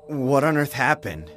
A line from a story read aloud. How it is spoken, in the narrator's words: I asked in a trembling voice